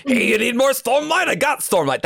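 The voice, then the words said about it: Character voice with Brooklyn accent. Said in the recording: “That's how Dalinar talks, actually. ... He sounds like a guy from Brooklyn.”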